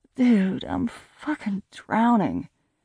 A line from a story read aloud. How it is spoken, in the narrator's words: I groaned to Christopher